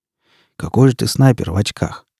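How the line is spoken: Quiet question. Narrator (Russian): негромко спросил он

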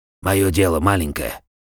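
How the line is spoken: Hoarse, curt. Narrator (Russian): хрипло и отрывисто сказал

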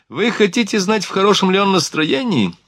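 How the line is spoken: Laughing. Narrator (Russian): смеясь, сказал офицер

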